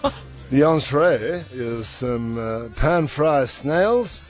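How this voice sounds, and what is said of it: Put-on accent slipping in and out. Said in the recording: “Your accent slips in and out quite a bit. It's hilarious.”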